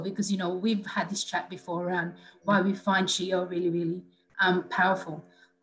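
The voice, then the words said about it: Teary, emotional voice. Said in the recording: “I'm getting a little bit teary as well ... I'm getting emotional.”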